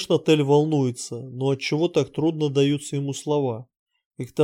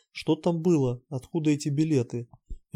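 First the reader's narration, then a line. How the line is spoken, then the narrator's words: Pause, then heavy sigh. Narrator (Russian): Виктор помолчал, вздохнул тяжело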